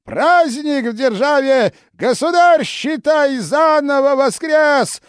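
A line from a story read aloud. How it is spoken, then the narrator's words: Yelling. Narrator (Russian): заорал Иоанн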